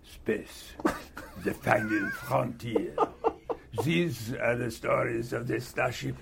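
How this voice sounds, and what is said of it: Bad put-on French accent. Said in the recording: “with a French accent ... How was your French accent? ... I sound like Peter Sellers. In fact, worse than Peter Sellers.”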